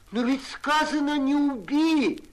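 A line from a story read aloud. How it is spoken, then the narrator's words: Groaning. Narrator (Russian): застонал Алексей Спиридонович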